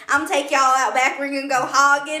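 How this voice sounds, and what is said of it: Put-on redneck Southern accent. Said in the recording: “Not like redneck.”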